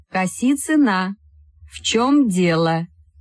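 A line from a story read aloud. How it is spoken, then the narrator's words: Slow, deliberate. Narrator (Russian): Медленно и раздельно сказала Вера Евстигнеевна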